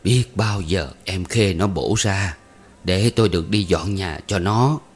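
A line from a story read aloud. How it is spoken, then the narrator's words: Sighing. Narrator (Vietnamese): Bà Cử thở dài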